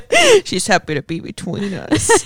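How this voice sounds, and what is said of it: Silly voice for talking to a pet. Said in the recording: “In my dumb dog voice. ... I'm going to turn my pet voice off and talk like a human.”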